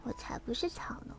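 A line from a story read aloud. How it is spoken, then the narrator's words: Soft. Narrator (Chinese): 花儿轻声的说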